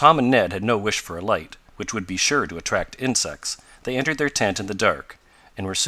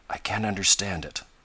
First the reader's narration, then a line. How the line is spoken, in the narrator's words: Ned murmur